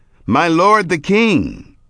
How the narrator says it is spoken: David cried after Saul, saying

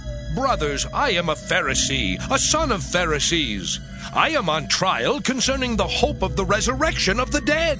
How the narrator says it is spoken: he called out in the council

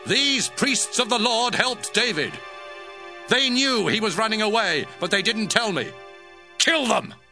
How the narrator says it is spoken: Saul shouted to his bodyguards

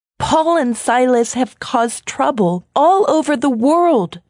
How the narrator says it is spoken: shouted

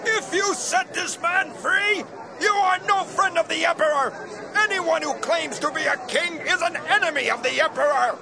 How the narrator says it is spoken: the Jewish crowd again yelled

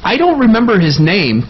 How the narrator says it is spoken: Colton said happily

